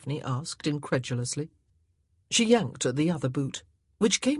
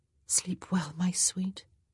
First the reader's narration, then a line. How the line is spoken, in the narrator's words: she whispered